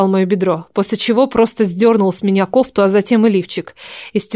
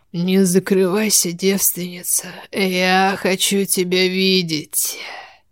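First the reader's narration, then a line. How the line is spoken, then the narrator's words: Hoarse, unrecognizable voice. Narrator (Russian): сказал он таким хриплым, уже неузнаваемым голосом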